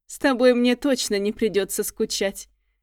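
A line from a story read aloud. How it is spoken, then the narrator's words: Speaking through laughter. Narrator (Russian): проговорил он сквозь смех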